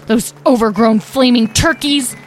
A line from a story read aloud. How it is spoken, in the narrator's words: Talora growled to herself